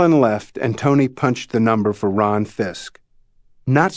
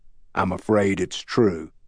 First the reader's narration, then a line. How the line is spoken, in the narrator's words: Tony said gravely